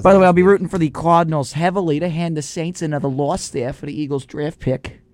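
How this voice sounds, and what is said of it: Put-on accent. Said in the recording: “I don't know why I slipped into this accent here, but, you know, watching too much Bill Burr”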